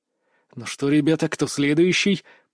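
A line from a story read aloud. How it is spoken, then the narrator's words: Hissed. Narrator (Russian): прошипел я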